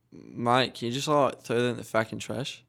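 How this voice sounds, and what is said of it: Put-on Australian accent. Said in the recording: “You're speaking in the Australian accent”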